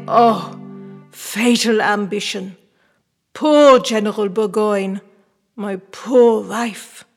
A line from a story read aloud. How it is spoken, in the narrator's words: amidst his groans, exclaim